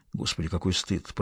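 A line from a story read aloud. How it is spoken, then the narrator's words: Mutter. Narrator (Russian): пробормотал он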